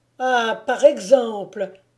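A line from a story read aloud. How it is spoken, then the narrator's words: Delighted exclamation. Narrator (French): s'écria Marcotte, enchantée de faire retomber sur un autre la mauvaise humeur de son maître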